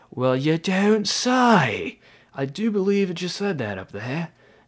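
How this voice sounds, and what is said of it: Bad put-on British accent. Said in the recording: “Bad British accent”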